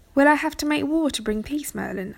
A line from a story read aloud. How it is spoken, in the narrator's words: Arthur asked